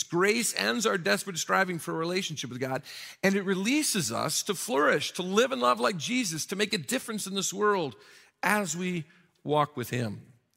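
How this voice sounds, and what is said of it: Slightly scratchy voice. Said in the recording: “You may hear in my voice a little bit of a scratchiness today... what you hear in my voice is not a cold or anything... I seem to have some allergies. So it will sound worse”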